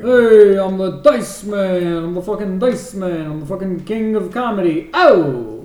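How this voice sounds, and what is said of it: Dice Man impression, drifting toward Bernie. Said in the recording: “I find myself slipping into Bernie ... It was super Bernie ... Yeah, that was not bad. That was better. ... do a Dice Man impression”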